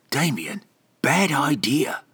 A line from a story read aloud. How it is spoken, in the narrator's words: Beodin whispered